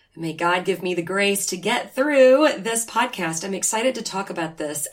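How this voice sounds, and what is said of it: Raspy, nasal voice. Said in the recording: “my voice sounds a little raspy,... a little nasally”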